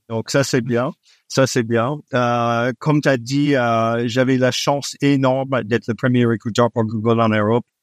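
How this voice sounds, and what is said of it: Slight non-native accent in French. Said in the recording (French): “T'entends tout de suite que je suis pas français d'origine. J'ai un petit accent. ... je perds jamais l'accent”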